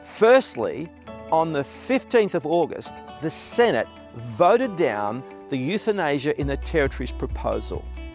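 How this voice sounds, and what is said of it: Australian accent. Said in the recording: “it's kind of nice hearing an Australian accent”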